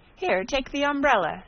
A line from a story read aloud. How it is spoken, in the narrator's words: she exclaimed